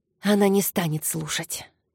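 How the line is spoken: Mumble. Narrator (Russian): пробормотала Файола

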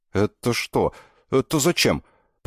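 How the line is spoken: Young man stuttering increasingly. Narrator (Russian): Парень все сильнее заикался

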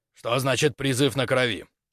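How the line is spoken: Stern question. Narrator (Russian): Спросил строго

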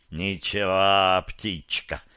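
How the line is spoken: Hiss. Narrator (Russian): прошипел ему верховный Назгул

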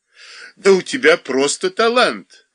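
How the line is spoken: Laughing. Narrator (Russian): опять засмеялся Коньков

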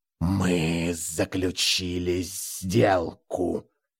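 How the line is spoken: Hissing creature. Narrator (Russian): прошипела тварь

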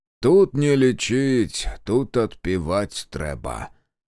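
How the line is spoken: Low booming drone. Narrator (Russian): прогудел Демьян

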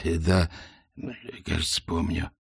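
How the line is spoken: Hoarse wizard. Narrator (Russian): прохрипел волшебник

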